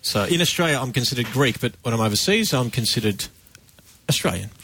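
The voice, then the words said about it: Australian accent. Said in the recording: “Greek by birth, Australian ... because of your accent. That's the giveaway.”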